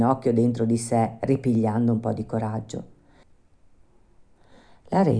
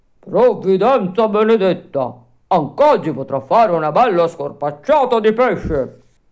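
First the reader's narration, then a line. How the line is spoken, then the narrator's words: Shouted happily. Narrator (Italian): gridò tutto contento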